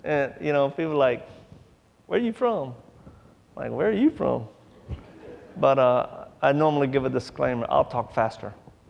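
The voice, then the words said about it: Louisiana accent. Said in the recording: “I'm originally not from here. I'm from Louisiana... I forget I have the accent”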